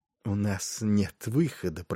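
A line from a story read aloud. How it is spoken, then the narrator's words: Muttered. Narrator (Russian): пробормотал Варис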